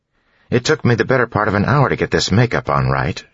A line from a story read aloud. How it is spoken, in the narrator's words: she snapped